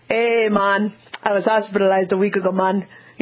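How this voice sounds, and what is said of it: Put-on Jamaican accent. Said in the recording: “read these emails, you know, in a different accent ... sometimes you do Jamaica Day”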